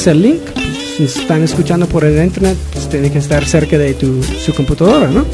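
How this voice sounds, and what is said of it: Spanish accent from Spain, Galician-like. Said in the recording (Spanish): “tenemos el acento de España... tienes un acento como allá, como... es como gallego... Allá como de Galicia”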